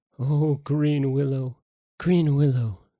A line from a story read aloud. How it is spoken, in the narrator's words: sighed Tomodata